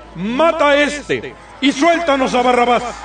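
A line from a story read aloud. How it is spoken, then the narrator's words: Crowd shouting in unison. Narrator (Spanish): empezaron a gritar todos a una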